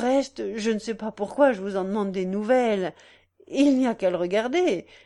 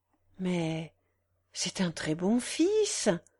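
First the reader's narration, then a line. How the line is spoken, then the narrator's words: Softly. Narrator (French): dit doucement madame de Montrescan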